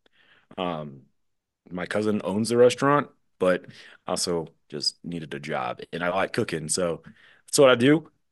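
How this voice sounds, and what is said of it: Put-on Southern accent. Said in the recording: “I just went into this like Southern accent”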